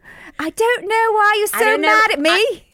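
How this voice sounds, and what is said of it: Put-on British accent. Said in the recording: “Maybe a British accent.”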